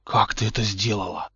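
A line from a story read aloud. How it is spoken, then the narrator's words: Admiring whisper. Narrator (Russian): восхищенно прошептал Поттер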